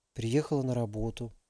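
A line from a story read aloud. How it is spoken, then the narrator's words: Whispered. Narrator (Russian): прошептала Алиса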